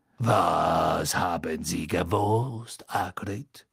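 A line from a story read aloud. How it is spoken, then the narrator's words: Quiet purring voice. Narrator (German): sagte Madame Maxime mit einem deutlichen Schnurren in ihrer leisen Stimme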